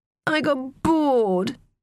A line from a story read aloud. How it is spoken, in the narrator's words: she whined at Teo